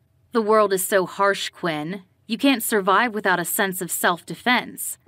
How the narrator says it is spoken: He growled

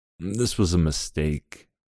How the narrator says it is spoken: I mumbled

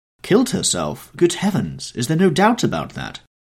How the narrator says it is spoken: cried Hallward, with an expression of horror

